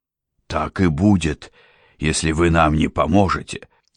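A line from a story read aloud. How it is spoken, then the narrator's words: Hoarse rasp. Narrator (Russian): прохрипел сэр Ганнибал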